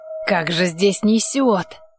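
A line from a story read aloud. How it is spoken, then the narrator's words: Grumbling. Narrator (Russian): ворчание Кририка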